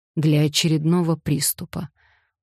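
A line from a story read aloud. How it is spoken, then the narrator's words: Tired explanation. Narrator (Russian): устало пояснил он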